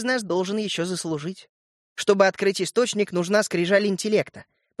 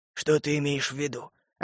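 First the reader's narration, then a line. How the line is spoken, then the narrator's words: Hoarse voice. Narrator (Russian): ответил ему вопросом на вопрос сиплый голос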